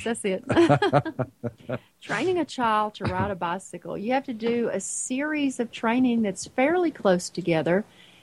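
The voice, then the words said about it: Swedish accent. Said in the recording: “It's that Swedish accent of yours.”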